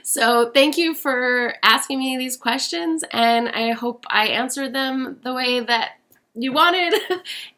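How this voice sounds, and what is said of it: Strained, fading voice. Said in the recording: “I'm losing my voice because I'm a teacher during the week and all I do is talk”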